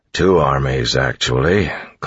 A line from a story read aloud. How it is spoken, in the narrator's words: Clubs grumbled